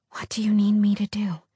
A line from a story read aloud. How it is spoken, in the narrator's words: She whispered